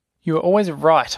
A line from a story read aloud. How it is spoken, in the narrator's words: cried